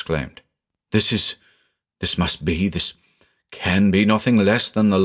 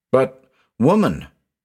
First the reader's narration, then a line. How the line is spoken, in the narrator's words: I exclaimed wildly